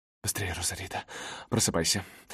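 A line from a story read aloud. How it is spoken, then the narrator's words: Urgent hiss. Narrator (Russian): прошипела старшая подруга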